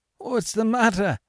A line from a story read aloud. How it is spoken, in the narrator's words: stammered Monsieur Gerbois